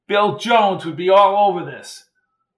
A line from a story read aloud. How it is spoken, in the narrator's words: Jones shouted out